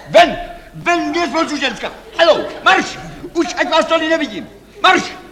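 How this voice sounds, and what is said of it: Shouting angrily. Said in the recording (Czech): “Nekřičte.”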